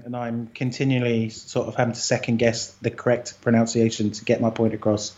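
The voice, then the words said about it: British accent. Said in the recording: “I have this British accent”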